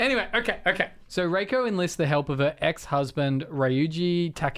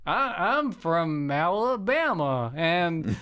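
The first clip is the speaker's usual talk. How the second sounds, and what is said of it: Bad Alabama accent, sounds Transylvanian. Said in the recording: “I can't do any accents. All my accents eventually sound Transylvanian ... Alabama”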